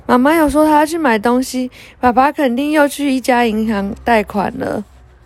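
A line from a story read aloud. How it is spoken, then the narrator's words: Sighing. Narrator (Chinese): 雷亚叹了一口气说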